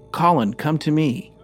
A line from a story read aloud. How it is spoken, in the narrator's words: he called out